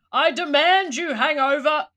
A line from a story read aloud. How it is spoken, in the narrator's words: the superintendent roar